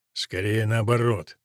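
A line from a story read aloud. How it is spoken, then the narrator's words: Grumbling knight. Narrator (Russian): проворчал рыцарь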